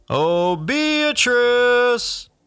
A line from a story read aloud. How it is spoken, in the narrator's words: the cop yell